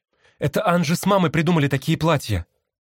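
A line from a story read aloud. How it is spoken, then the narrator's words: Hurried speech. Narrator (Russian): торопливо заговорила Марни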